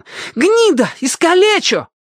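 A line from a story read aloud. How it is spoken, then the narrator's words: Boys shouting in deep hurt. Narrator (Russian): кричали доведенные до крайней обиды мальчишки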